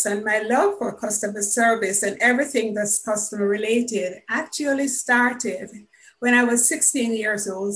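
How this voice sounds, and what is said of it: Jamaican accent. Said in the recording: “I am Jamaican, as anyone who knows anything about accents can tell.”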